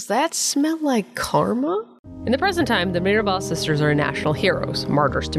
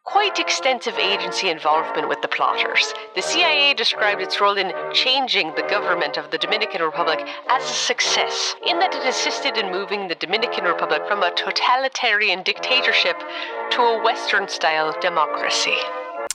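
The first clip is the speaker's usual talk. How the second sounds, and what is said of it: Mid-Atlantic accent. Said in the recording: “Beautifully said in your mid-Atlantic accent.”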